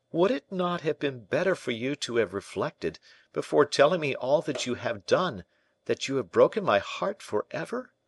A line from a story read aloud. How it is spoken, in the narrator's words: cried the prince